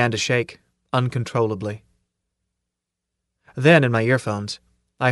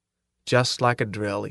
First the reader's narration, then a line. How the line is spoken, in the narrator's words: he says